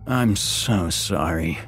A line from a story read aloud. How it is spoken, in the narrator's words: slurred, only half awake